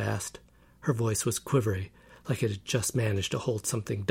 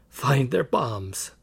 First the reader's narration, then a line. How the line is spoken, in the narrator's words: I croaked